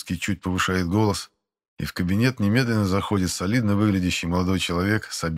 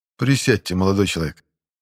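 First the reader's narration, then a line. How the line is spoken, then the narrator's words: Flat, colorless voice. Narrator (Russian): Бесцветным голосом произносит Харитон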